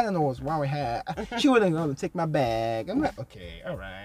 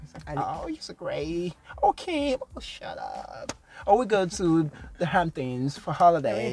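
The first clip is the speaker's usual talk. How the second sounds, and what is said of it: Put-on California valley-girl accent. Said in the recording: “It's California accent. ... This is the worst so California pretty. Accent I've ever heard in my life. ... It's a Kalashan accent.”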